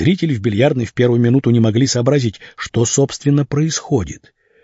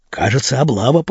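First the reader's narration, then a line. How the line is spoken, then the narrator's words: Whispered. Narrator (Russian): прошептал кто-то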